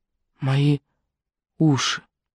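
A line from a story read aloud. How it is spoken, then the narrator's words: Whisper. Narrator (Russian): она шепнула Жули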